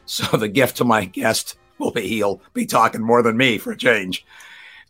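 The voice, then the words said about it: Hoarse, strained voice. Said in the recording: “I've got laryngitis. You can hear my apologies.”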